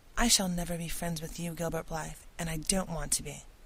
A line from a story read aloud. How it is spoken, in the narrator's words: she said coldly